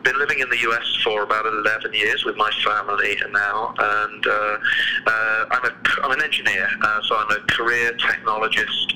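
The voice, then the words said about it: British English accent. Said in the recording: “as you can probably tell from my accent, I'm not originally from around here. I was born in the UK, just to the south of London”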